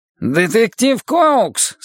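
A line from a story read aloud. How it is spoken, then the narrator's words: Nasal Irish accent. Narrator (Russian): спросил Форд с гнусавым ирландским акцентом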